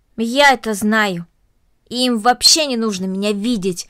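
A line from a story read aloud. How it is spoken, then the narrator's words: Angry. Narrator (Russian): сердито произнесла Корнели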